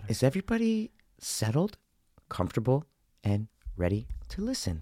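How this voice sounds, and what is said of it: Soothing bedtime-story mom voice. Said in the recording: “read me a fucking bedtime story ... mom tone ... mom voice”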